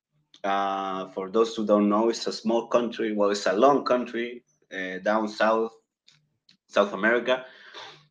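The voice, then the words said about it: Chilean-accented English, non-native speaker. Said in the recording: “my accent sounds really weird because, well, I'm not American. My English is actually my second language. I'm from Chile.”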